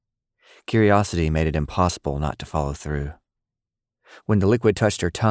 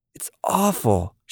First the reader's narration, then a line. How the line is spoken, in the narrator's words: she exclaimed